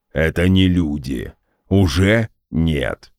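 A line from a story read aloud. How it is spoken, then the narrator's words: Deep booming drone. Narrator (Russian): прогудел Гундахар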